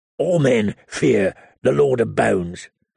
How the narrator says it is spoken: the wildling grumbled

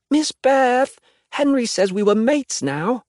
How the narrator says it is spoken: Claudette practically wails

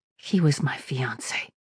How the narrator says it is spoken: she mumbled

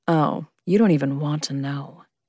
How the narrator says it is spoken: he purred

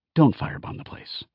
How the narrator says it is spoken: Brent said to me, his voice lowered so Laertes wouldn't hear

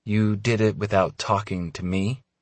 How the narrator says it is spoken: She asks slowly

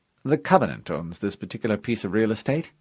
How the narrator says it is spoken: the AI replied calmly

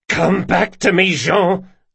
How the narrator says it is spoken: Locke spat

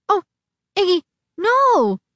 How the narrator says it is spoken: Nudge cried

